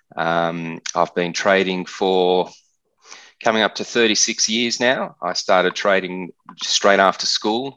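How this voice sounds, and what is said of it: Australian accent. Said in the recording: “you can hear from my accent that I'm an Australian”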